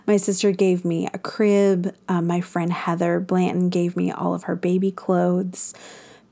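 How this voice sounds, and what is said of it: Emotional, choked-up voice. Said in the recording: “I'm getting emotional.”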